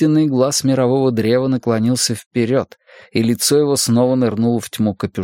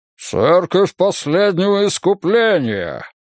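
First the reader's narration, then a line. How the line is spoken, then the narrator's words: Deep bass bark. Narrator (Russian): низким басом рявкнул епископ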